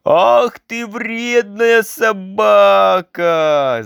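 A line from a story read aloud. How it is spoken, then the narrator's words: Shout. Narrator (Russian): закричала Женя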